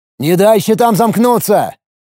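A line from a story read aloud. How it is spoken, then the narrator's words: Shouted. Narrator (Russian): крикнул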